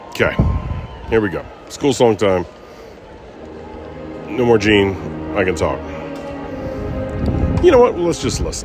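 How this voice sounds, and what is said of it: Hoarse, nearly lost voice. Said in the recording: “My voice is too gone to sing.”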